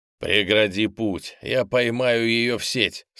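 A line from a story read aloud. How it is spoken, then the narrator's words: Commanding. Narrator (Russian): скомандовал Стефан Алексе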